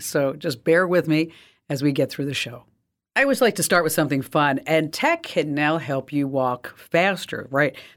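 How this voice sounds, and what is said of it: Slightly raspy voice. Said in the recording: “my voice is a little raspy today ... I just got a little bit of a cold”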